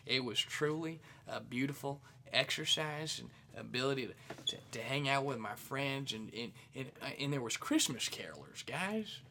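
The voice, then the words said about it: Put-on accent. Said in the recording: “I don't know why I'm doing that accent”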